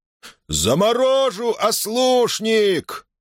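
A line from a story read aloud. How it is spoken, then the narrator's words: Wild roar. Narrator (Russian): проревел диким голосом Ких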